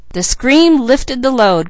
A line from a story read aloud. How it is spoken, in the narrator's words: cried Mickey